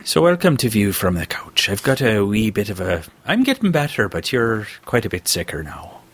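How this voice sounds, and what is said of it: Put-on Irish accent. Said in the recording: “I'm going to talk like this for a while, just for fun ... I do a pretty decent Irish accent”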